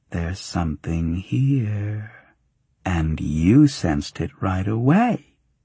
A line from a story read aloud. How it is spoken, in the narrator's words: she mused